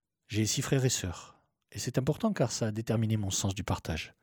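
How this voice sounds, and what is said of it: Slight southern French accent. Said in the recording (French): “un gazier du Sud ... dans le Var ... D'où un petit accent plein de cigales”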